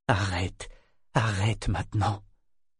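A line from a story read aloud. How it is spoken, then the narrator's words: Choked murmur. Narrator (French): murmura-t-elle d'une voix étranglée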